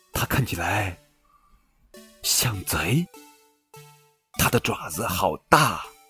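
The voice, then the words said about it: Quiet, hushed character voice. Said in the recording (Chinese): “小声说”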